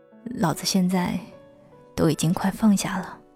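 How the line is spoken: Murmuring. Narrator (Chinese): 他喃喃地说

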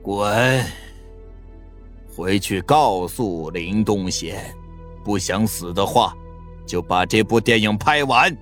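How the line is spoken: Cold sneer, low voice. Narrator (Chinese): 张二毛冷笑 低声道

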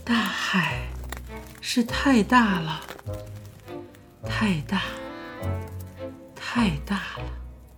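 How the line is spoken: Murmuring with a sigh. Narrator (Chinese): 女娃喃喃地说，还伴随着悠悠的一声叹息

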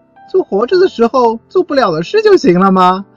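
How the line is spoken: Laughing. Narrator (Chinese): 和夫笑着说

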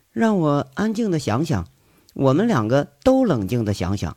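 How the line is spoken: Cold. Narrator (Chinese): 韩雪冷冷地说着

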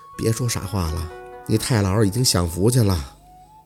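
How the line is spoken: Soft murmur. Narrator (Chinese): 凤年 嘴里轻声的念着

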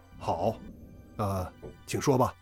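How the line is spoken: Deep low voice. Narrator (Chinese): 邝将军沉声道

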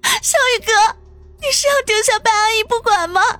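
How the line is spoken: Crying. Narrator (Chinese): 小竹哭着说道

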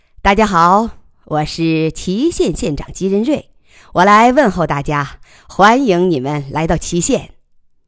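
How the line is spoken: Loud, cheerful. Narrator (Chinese): 把平时的不苟言笑换成满脸嬉笑，高声道

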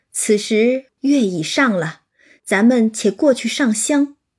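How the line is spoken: Laughing. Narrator (Chinese): 贾母笑道

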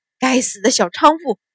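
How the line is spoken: Cursing through gritted teeth. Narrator (Chinese): 秦鹏咬牙骂道

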